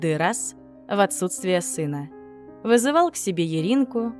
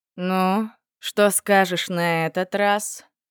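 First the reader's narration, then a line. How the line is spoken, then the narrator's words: Menacingly indifferent. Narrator (Russian): угрожающе безразличным тоном спросил он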